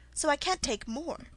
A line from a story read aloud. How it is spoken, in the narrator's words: Alice replied in an offended tone